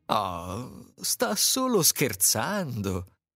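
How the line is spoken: Group laughing. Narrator (Italian): dicevano tutti ridendo

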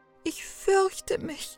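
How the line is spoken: Sobbed. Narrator (German): schluchzte Gretel

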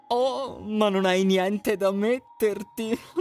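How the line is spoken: Laughing older stepsister. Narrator (Italian): rise la sorellastra maggiore

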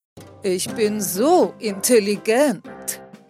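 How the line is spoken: Calling out. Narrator (German): rief er

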